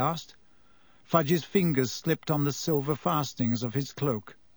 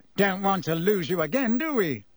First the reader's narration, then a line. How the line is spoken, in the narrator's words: said Fudge, with a hearty laugh